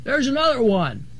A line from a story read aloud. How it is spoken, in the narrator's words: Circus cried